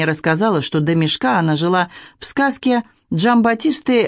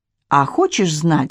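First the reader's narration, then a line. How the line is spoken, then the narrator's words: Plain. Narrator (Russian): спросила она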